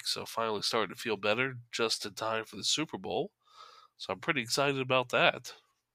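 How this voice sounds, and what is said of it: Congested, stuffy-nosed voice. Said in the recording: “as I'm sure you can tell from my voice. I'm a little congested”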